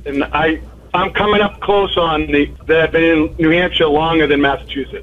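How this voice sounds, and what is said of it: Slight Boston accent. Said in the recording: “you have a little bit of a Boston accent”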